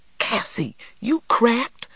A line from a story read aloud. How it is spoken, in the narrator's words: cried Stacy